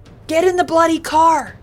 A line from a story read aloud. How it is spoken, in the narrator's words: he yelled to Sue and the kids